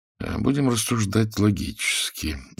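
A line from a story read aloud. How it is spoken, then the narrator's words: Quiet, young man, to himself. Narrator (Russian): негромко говорил сам себе молодой человек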